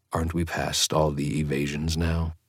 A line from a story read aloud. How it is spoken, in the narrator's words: I asked quietly